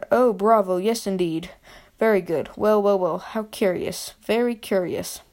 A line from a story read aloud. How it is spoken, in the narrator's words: Ollivander cried